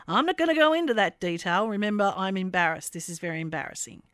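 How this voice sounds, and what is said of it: Slight put-on American accent. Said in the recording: “there was a slight hint of an American accent there”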